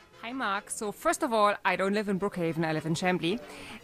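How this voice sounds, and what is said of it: German accent. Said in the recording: “I'm from Germany. This is where the accent is from.”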